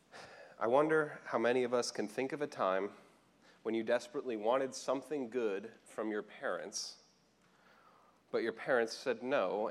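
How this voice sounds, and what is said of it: Slightly scratchy voice. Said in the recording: “my voice sounds a little scratchy. The pollen is coming in quite thick this year.”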